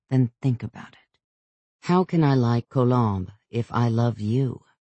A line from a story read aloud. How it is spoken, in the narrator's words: his tone became even slightly harsh